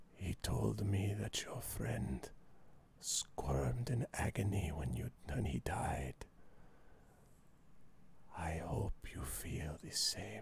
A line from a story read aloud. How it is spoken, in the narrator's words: whispers in your ear and he says